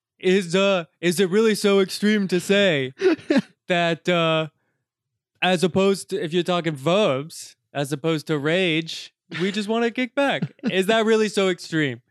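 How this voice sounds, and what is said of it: Imitates another person's voice. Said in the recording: “Was that a Bernie impression? ... That was a Bernie Sanders. ... It was uncanny.”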